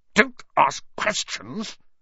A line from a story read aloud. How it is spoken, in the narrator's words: snapped his uncle